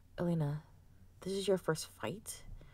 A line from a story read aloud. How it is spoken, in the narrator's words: Kervis asked her quietly